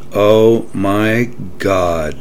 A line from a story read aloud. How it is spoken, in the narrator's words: replied Francine